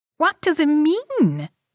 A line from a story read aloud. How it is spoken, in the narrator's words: he cried, his face vivid with dismay and astonishment